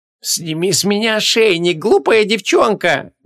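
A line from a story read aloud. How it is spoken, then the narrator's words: Sudden hiss in ear. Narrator (Russian): Неожиданно прошипели ей в ухо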